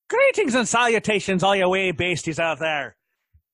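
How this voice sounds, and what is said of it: Bad put-on Irish accent. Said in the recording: “That's probably a horrible Irish accent. ... The best I could do.”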